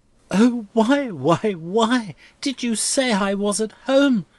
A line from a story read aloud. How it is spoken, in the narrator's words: cried Rosa helplessly